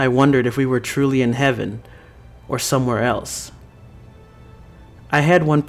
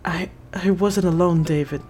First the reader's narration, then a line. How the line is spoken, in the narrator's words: Clara whispered